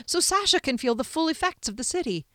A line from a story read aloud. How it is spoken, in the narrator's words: he suggested excitedly